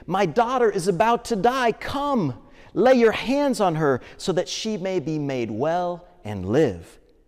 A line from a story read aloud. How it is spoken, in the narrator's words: Jairus, the synagogue leader, begged him repeatedly